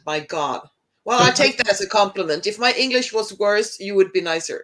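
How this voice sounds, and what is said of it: Non-native English speaker's foreign accent. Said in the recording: “I'm a foreigner. You should be nice to me and don't be mean to my accent.”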